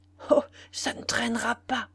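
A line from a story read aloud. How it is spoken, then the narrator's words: Murmur. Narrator (French): murmura-t-elle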